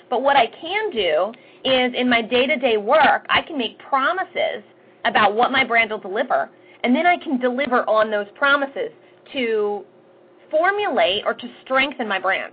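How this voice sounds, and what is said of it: Fast-talking Philadelphia accent. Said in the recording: “I'm from Philadelphia, I talk fast, I have an accent”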